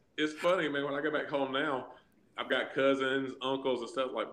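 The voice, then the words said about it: Southern American accent. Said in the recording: “is that your real Southern accent, or are you exaggerating a little bit?”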